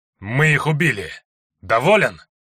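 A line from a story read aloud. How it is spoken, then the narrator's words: Through gritted teeth. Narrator (Russian): Сквозь зубы процедил Лекс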